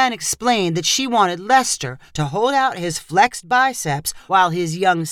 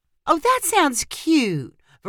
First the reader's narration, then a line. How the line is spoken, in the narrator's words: Veronica said sweetly